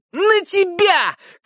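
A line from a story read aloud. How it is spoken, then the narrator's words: Shouting. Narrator (Russian): кричал Хилли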